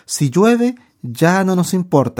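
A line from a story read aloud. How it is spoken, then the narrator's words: Exclaimed. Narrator (Spanish): exclamó David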